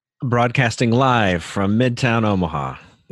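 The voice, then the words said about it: Radio DJ announcer voice. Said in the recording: “you get your DJ voice on”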